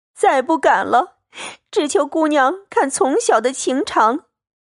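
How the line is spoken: Tearful pleading. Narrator (Chinese): 入画又跪下哭求，说

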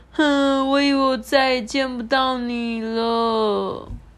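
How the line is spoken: Crying. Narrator (Chinese): 卡罗哭着说

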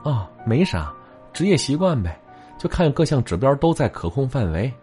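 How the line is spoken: Flat, detached. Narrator (Chinese): 小江淡淡说了一句

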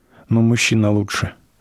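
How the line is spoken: Hostess's sigh. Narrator (Russian): вздохнула хозяйка

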